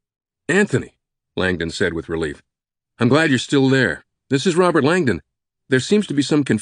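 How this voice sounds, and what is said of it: Usual voice. Nothing is said of it.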